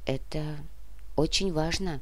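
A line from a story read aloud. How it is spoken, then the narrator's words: Quiet. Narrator (Russian): тихо произнесла Олеся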